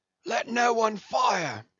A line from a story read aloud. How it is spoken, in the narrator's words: shouted Brown